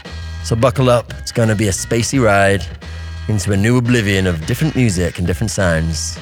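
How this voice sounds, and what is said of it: Put-on American accent. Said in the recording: “I'm adopting this weird American accent or whatever it is”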